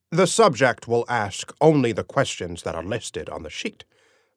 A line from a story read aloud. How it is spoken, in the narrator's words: my dad said coldly